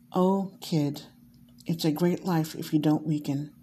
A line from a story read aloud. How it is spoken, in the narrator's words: evenly and slowly, let out a long, deep sigh and said